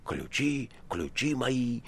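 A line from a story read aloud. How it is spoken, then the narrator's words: Wheezing. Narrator (Russian): хрипя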